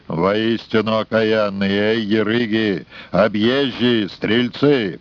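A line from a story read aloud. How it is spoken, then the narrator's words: Angry booming bass. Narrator (Russian): Архиерей побагровел, забасил во всю мощь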